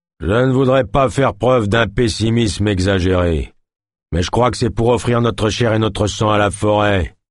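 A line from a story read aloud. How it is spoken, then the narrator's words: Deep thundering voice. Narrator (French): tonna une voix grave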